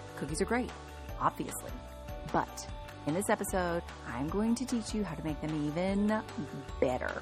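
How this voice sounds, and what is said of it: Excited, slightly out of breath. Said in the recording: “Can you tell by my voice? And the fact that I'm a tiny bit out of breath because we're about to talk about cookies and I'm so excited.”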